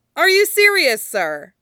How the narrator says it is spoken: Someone shouted

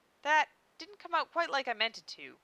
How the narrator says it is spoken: she said hastily

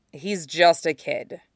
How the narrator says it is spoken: Zuko said wearily

